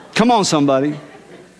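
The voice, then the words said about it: Loud preacher-style call. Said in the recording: “You're going to be my preacher voice today... you say it like that”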